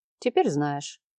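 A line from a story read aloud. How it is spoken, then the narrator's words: Calm. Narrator (Russian): спокойно сказал Марат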